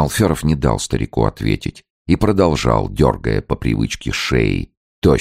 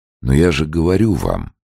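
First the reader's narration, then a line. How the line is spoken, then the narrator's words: Gentle interruption. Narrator (Russian): мягко прервал Подтягин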